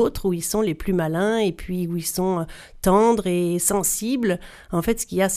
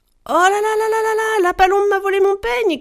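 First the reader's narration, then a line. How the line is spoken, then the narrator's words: Shouting princess. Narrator (French): criait la princesse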